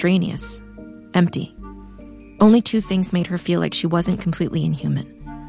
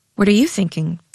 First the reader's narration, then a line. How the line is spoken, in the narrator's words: Jade asked finally